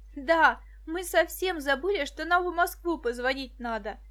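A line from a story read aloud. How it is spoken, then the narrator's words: Cheerful. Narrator (Russian): бодро сообщила Виктоша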